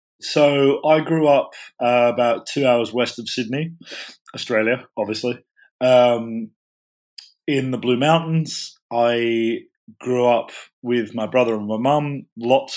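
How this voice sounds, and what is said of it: Australian accent. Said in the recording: “you have you have a funny accent”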